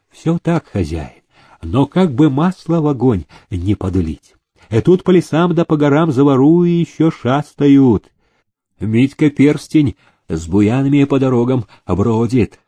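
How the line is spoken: Insinuating whisper. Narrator (Russian): вкрадчиво шептал

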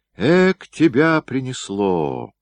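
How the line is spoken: Displeased. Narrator (Russian): недовольно сказал он

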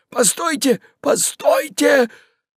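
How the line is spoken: Hoarse, frightened. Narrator (Russian): захрипел побледневший еврей

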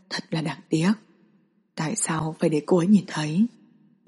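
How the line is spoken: Mock sorrowful sigh. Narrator (Vietnamese): Lâm Khai Dương giả bộ thở dài

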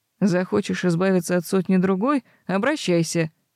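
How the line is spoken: Snorting. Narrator (Russian): хмыкнул Себастьян

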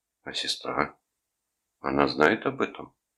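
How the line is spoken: Forced calm, suppressed anger. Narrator (Russian): Рудольф старался говорить спокойно, не поддаваться нахлынувшему на него приступу гнева

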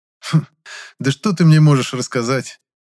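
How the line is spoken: Skeptical grunt. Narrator (Russian): Хмыкнул я

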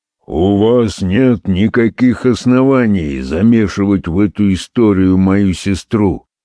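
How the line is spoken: Young man grumbling. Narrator (Russian): пробурчал молодой человек

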